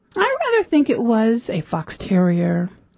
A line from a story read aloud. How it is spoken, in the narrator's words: said the Duke lazily